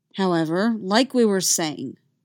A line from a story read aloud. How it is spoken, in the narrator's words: Kanan said, keeping his voice stern